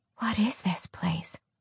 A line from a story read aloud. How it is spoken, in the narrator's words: She whispered, feeling a sense of awe